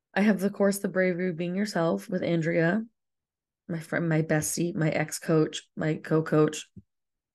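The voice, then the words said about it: Raspy voice with vocal fry. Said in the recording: “raspy voice that I have going on here... the vocal fry”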